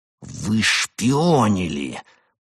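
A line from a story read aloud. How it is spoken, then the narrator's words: Hissed. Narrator (Russian): прошипел он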